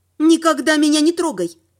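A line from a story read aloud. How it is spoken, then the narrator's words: Sharp. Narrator (Russian): резко сказала я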